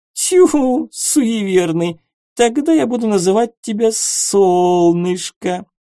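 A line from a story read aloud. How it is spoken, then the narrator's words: Languid drawl. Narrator (Russian): последнее слово суккуб томно протянула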